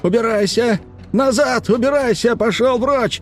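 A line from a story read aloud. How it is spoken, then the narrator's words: Shouting at top of lungs. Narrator (Russian): Реджес кричал во все горло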